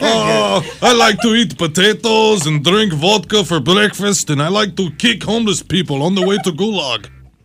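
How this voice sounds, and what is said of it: Put-on Russian accent. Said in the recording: “My accent rhymes with Lushin. ... Russian.”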